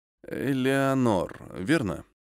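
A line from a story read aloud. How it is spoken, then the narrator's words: Slightly uncertain question. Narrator (Russian): Слегка неуверенно переспросил Майкл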